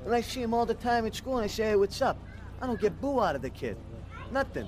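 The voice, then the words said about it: Strong Boston accent. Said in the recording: “Listen to the way this guy talks ... That accent. ... parts of it sound more like New York-y? Like, hey, how you doing? ... the Boston accent”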